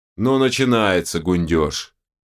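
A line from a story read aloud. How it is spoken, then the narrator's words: Disappointed grumble. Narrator (Russian): разочарованно проворчал Берс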